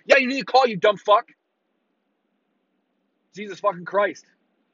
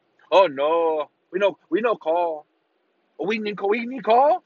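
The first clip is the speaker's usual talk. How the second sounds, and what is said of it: Mocking put-on foreign accent. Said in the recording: “Don't know if you can tell what accent that was, but it's mostly that.”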